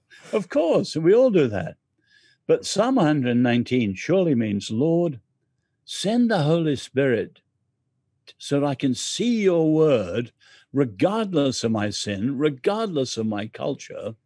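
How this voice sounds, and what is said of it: English accent. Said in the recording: “I'm English. ... I like your accent.”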